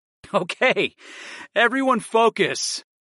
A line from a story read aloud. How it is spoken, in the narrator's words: I insisted through my laughter